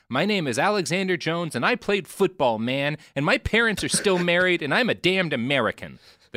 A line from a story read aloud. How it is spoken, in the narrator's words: erupted into tears, yelling